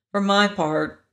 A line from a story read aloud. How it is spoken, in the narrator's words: said the private meekly